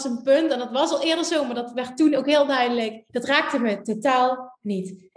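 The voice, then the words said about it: Noticeable accent in Dutch. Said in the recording (Dutch): “ik blijf een accent houden. Ik omarm het nu ook, het hoort bij me.”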